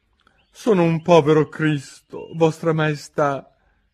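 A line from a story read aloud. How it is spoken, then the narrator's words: Hatter's trembling voice. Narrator (Italian): cominciò il cappellaio con voce tremula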